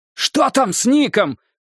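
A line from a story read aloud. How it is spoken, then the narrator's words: Shouting. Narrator (Russian): прокричал Стью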